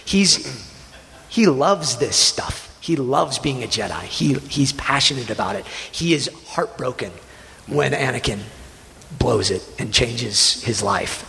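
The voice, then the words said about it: Choked-up emotional voice. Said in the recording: “get choked up”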